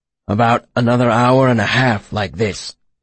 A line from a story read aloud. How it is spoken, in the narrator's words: he rasped